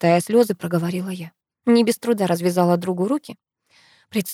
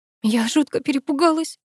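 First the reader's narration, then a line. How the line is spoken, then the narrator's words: Sobbing. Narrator (Russian): всхлипывая, проговорила я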